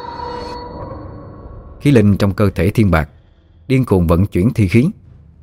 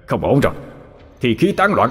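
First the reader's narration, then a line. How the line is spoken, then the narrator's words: Anguished scream. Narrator (Vietnamese): Thiên Bạc hét thảm một tiếng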